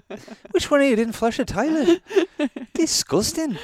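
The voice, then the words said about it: Imitated British regional accent. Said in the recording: “Essex accent ... maybe Northern England, actually ... I think Scottish ... Almost Scottish”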